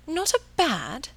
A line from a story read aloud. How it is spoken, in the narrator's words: she exclaimed